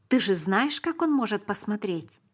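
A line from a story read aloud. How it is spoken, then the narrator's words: Plain. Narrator (Russian): сказал Давид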